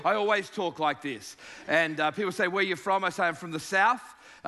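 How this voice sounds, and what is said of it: Australian accent. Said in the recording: “accent that I don't have. Just remember, it's your ears that have the accent ... The deep South, down in Sydney, Australia.”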